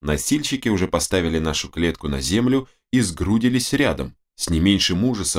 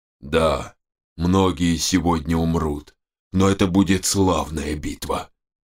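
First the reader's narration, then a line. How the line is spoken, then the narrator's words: Muffled, dull. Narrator (Russian): глухо произнес он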